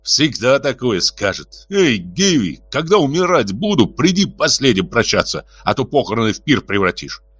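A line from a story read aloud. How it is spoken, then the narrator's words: Through clenched teeth. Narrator (Russian): сквозь зубы процедил Элисбар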